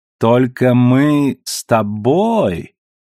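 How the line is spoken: Joking drawl, exaggerated accent. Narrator (Russian): с преувеличенным акцентом протянул Алекс, подчеркивая, что шутит

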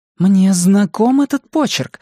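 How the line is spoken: Surprised exclamation. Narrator (Russian): воскликнула Линь Юнь

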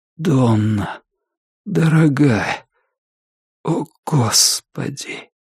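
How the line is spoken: Quiet. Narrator (Russian): тихо сказал он

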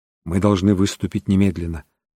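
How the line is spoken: Quiet, resolute, sober. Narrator (Russian): сказал Джефферсон Хоуп тихо, но решительно, как человек, трезво сознающий масштаб опасности, однако намеренный бороться до конца

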